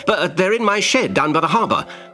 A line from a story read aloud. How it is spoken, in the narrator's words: said Ben eagerly